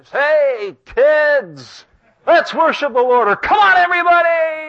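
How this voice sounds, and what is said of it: Hyped-up radio announcer voice. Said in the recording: “with a radio voice.”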